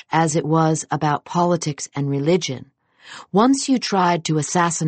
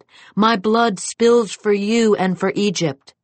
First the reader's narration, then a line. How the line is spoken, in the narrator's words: Nasser shouted